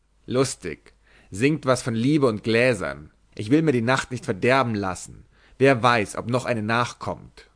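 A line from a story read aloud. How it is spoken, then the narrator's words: Annoyed, irritable shout. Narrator (German): Jack Flatnose schlug verstimmt rief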